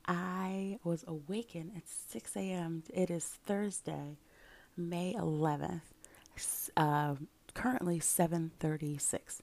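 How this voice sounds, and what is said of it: Whispering. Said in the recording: “You may notice that I'm whispering a bit.”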